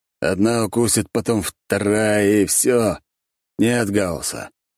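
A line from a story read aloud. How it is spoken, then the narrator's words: Doomed sigh. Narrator (Russian): обреченно вздохнул я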